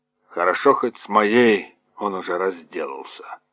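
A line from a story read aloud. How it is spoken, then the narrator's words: Grumbling mutter. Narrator (Russian): пробурчал полковник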